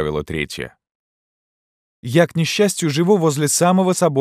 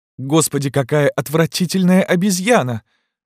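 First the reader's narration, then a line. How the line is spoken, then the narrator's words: Exclaiming. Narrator (Russian): воскликнула одна из них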